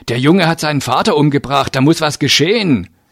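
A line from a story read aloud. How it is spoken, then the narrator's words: Called out. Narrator (German): rief ich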